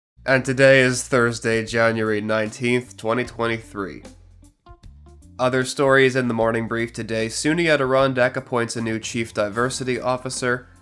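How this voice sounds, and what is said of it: Sick, strained voice. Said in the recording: “I'm a bit sick today. My voice is starting to go”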